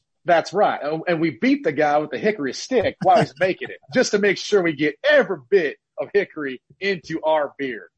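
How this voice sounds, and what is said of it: Put-on Southern US accent. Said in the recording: “I do a terrible Southern impression... You did a good job.”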